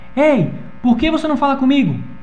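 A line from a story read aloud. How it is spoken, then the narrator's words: Shout. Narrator (Portuguese): ele gritou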